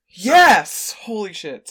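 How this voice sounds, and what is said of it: Yelling. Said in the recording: “I didn't mean to yell.”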